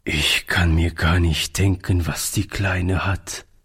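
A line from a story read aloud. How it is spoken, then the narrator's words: Sad. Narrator (German): sagte Oliver traurig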